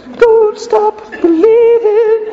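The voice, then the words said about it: Singing in a falsetto voice. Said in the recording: “In my little falsetto voice ... my terrible singing”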